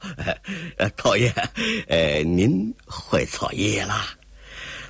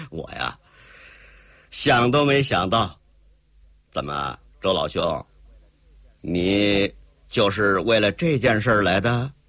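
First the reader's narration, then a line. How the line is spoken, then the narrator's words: Wry rueful. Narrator (Chinese): 寇英杰苦笑笑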